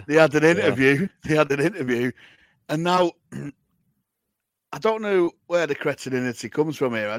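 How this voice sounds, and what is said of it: Strained, worn-out voice. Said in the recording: “My voice is shot today.”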